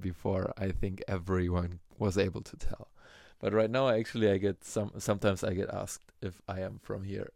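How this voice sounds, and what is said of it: German-accented English. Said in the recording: “my accent that I have, my German accent”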